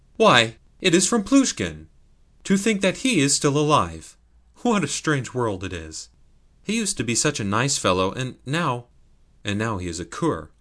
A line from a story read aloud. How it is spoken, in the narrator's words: he exclaimed